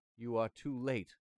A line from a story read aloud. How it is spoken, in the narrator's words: I cried